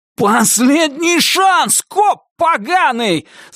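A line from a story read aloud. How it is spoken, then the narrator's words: Shouted angrily. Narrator (Russian): заорал Туз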